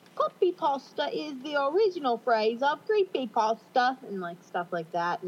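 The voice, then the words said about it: Poor put-on British accent. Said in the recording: “my horrible British accent”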